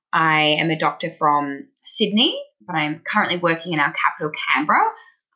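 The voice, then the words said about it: Australian accent. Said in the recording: “you might hear from my accent, I'm Australian.”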